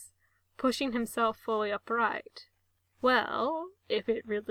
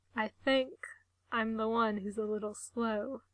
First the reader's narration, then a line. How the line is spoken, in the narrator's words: he admits, his voice low and throaty